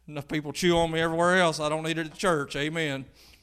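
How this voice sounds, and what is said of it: Speaks with a twang. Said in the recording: “My twang is pastor. It sounds like the other way.”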